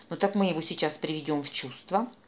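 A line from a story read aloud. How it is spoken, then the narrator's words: Menacing. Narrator (Russian): грозно пообещал главарь пиратов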